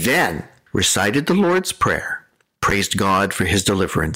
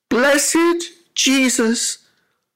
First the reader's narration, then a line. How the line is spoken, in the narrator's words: after 2 hours of prayer, Lukins suddenly relaxed and exclaimed